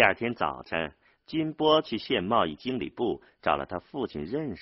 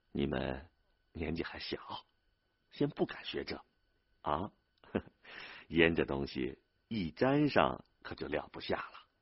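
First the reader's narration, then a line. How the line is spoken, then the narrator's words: Old man laughing. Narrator (Chinese): 玉后老汉儿也笑了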